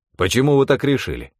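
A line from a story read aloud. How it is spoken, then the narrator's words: Sharp retort. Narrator (Russian): резко бросил он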